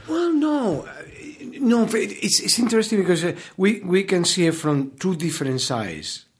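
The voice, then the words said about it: Spanish-accented English. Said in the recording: “the Americans are so enamored of your accent ... They're amorous of your accent”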